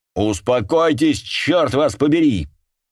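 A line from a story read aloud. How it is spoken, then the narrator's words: Thundering, barely hidden fear. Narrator (Russian): прогремел Рикардо, которому уже было трудно сдерживать собственный страх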